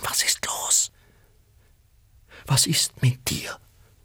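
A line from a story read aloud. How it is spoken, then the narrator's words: Whispering. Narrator (German): flüsterte sie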